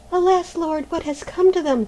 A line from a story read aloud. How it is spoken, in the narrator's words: cried Maruschka